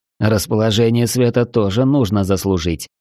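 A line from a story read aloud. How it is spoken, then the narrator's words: Dry reply. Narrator (Russian): сухо ответил я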